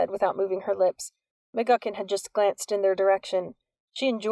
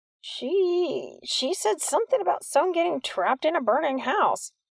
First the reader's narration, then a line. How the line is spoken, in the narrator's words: Walter squeaked on the verge of tears